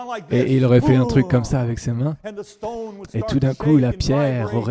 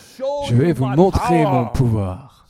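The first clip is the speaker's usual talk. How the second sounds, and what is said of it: Put-on accent, action-hero style. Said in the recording (French): “Je ne sais pas quel accent c'était, mais bon... Comme Arnold Schwarzenegger ou quelqu'un comme ça.”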